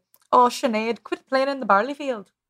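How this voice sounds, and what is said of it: Put-on Irish accent. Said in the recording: “but that's Irish.”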